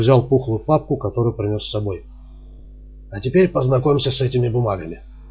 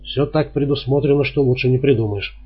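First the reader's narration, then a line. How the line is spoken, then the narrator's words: Plain. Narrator (Russian): сказал Гирланд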